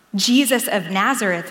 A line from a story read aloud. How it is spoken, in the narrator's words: they replied